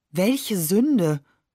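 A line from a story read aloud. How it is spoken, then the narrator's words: Plain. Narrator (German): fragt sie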